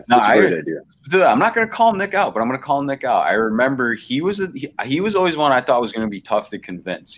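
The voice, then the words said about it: Canadian, Nova Scotian accent. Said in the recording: “do you have a Canadian accent? ... you talk very Canadian. ... Like Nova Scotian Canadian.”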